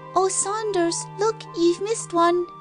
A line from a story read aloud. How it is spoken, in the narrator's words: piped the youngest child